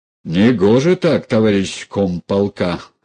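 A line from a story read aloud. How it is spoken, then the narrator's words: Barked. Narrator (Russian): рявкнул Ной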